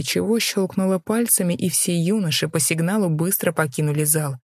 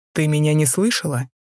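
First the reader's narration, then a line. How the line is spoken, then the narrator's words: Low-toned question. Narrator (Russian): Низким тоном спросил Рихард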